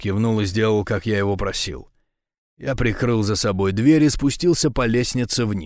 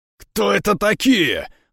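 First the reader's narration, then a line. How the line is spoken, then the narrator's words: Roaring. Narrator (Russian): взревел Рома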